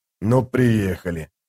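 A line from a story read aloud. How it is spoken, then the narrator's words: Soldier grumbling. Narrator (Russian): пробурчал кто-то из солдат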